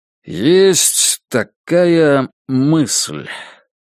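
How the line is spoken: Slow drawl. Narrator (Russian): протянул он наконец

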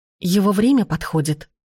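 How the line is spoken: Frightening whisper. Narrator (Russian): шепнул из темноты пугающий голос Агаты

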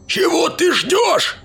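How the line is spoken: Shouted. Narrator (Russian): закричал Хьюзен

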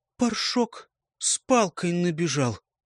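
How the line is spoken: Forced out. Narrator (Russian): выдавила она

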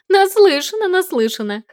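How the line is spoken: Woman laughing loudly. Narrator (Russian): хохотала она

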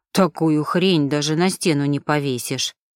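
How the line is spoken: Muttering. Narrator (Russian): пробормотал он

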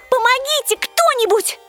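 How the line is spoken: Yelling. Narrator (Russian): Я орала

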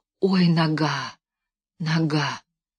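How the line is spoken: Frantic whisper. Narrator (Russian): шептал исступленно Левка

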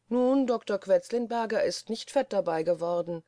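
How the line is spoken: Dry remark. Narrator (German): sagte Schwibus trocken

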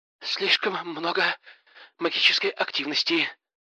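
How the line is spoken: Trembling voice. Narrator (Russian): дрожащим голосом поведала Дина

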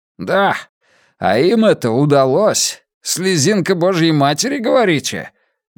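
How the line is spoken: Cold laugh. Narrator (Russian): Дин И холодно рассмеялся

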